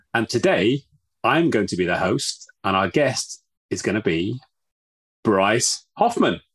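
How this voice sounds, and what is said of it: British English accent. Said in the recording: “The accent may be a giveaway. ... from London, UK.”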